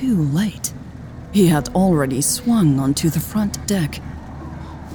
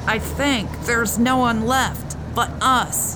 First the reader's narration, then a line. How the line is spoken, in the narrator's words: Hobbs yelled over the din